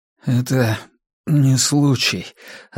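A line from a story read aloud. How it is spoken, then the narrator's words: Weak trembling voice. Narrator (Russian): ответил Джад слабым и слегка дрожащим голосом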